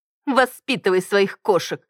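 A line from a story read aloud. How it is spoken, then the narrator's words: Scornful snort. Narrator (Russian): Фыркнула Маргарет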